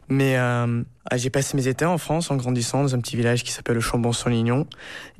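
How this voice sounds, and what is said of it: Slight American accent in French. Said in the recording (French): “mon français n'est pas parfait. J'ai un petit accent américain”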